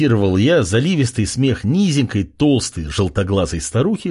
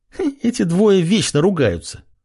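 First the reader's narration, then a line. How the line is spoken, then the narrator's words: Giggling foolishly. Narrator (Russian): сказала Исида, тоже глупо хихикая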